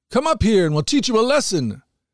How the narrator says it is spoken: the men from the outpost shouted to Jonathan

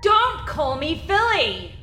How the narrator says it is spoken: Phil screamed to the empty deck

